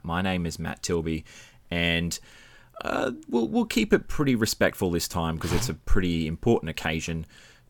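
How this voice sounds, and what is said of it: Radio announcer style voice. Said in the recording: “announcer voice ... That is a voice made for radio”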